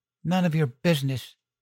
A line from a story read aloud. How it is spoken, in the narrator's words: snapped